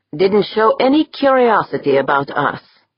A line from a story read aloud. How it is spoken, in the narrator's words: Deirdre said